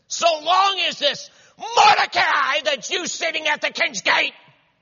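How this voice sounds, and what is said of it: High-pitched, rising, screaming Haman voice. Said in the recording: “Remember the accent again. ... It's like at a high pitch, and then it's just getting higher and higher, and he's screaming.”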